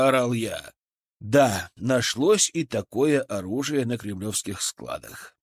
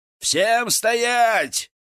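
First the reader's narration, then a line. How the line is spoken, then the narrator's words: Sharp loud shout. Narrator (Russian): крикнул резко и громко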